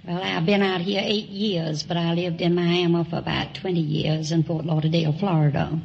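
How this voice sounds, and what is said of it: Southern US accent. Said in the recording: “I suspected you were south of the Mason-Dixon line. ... People in Long Beach don't have that kind of an accent.”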